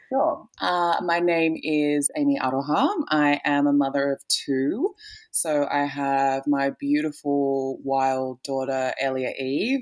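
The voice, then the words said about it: Australian accent with a twang. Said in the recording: “the Aussie accent ... It's got its own twang”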